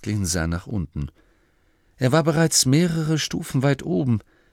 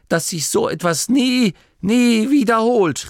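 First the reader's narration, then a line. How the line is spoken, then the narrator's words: Call out. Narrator (German): rief er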